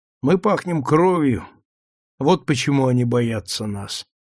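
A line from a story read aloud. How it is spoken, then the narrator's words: Tired explanation. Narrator (Russian): поясняет устало Брайер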